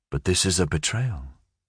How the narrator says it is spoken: Colonel Gerineldo Marquez said softly

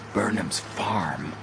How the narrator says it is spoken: hastily whispered

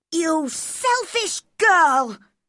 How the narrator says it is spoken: cried Colin

